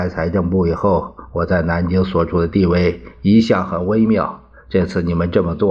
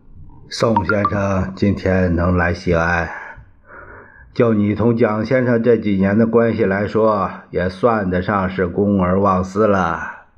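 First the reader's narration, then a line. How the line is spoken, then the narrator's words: Sighing. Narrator (Chinese): 杨虎城叹了一声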